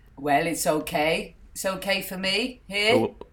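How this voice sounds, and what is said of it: Put-on Welsh accent, sounds West Country. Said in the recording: “what's that accent you're doing? ... turned into someone from Devon ... I am doing a Welsh accent”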